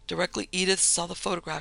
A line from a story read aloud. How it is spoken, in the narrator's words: she said excitedly